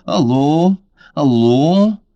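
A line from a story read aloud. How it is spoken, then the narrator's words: Low-voiced shout. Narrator (Russian): Лиза крикнула своим низким голосом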